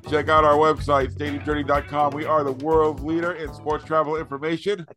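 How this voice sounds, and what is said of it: Hoarse voice cutting in and out. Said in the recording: “apologize for my voice. It's kind of going in and out.”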